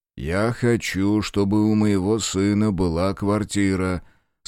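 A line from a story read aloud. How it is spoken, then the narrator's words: Calm interruption. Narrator (Russian): спокойно перебил его дядя Женя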